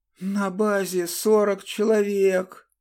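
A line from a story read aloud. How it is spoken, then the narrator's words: Hissed in pain. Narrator (Russian): прошипел, кривясь от боли, сломленный гений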